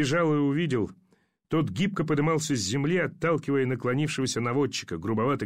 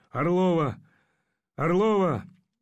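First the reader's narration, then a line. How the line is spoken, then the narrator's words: Hoarse calling voice. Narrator (Russian): зовущий хриплый голос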